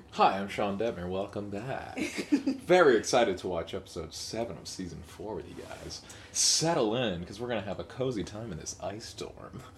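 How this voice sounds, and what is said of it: Sexy smooth radio voice. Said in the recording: “my sexy radio voice.”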